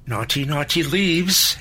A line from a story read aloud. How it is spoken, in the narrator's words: she added in the little girl voice she used from time to time